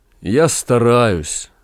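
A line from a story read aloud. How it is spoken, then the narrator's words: Sad. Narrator (Russian): грустно сказал Максим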